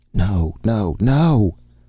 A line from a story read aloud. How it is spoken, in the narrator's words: They wailed murmurously